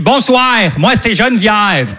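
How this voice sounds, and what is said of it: Put-on Quebec French accent. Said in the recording (French): “l'accent québécois. Mais c'est un bel accent”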